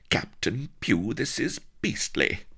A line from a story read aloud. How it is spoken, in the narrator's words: cried Vanity